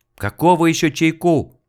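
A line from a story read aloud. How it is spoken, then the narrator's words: Yelling. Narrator (Russian): завопил Снегирев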